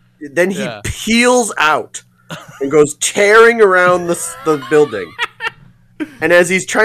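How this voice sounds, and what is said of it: Usual voice. Nothing is said of it.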